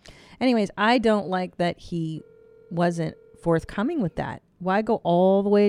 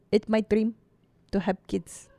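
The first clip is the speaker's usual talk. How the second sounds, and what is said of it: Put-on Filipino accent. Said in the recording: “It's a good impression... Of Rose... Filipino accent”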